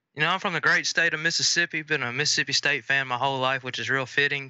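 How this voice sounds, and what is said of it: Noticeable Southern US accent. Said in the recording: “everyone will notice immediately your accent”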